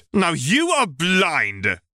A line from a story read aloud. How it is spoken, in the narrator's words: roared